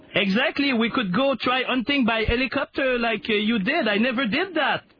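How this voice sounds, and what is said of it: Over-the-top French accent, Nicolas Sarkozy impression. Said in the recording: “using a heavy over-the-top French accent to impersonate French President Nicolas Sarkozy”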